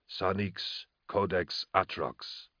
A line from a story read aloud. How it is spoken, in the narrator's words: Balak said quietly